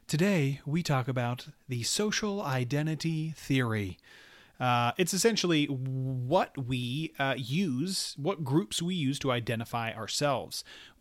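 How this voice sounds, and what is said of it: Sultry radio voice. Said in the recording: “I feel like I have my sultry radio voice on.”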